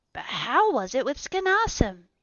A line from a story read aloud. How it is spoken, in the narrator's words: I cried